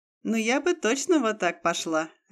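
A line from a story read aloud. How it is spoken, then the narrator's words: Laughing. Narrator (Russian): рассмеялась жена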